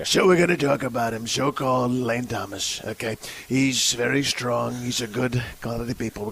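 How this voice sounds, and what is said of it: Donald Trump impression. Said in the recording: “Donald Trump”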